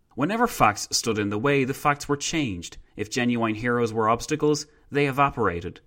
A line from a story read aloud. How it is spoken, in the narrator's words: Cultural figures, like the theatre critic Jan Kott, captured the style of Soviet dogma when he exclaimed